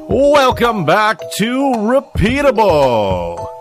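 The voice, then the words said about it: Game show host voice. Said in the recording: “That's a good game show voice, I thought, to do off the top.”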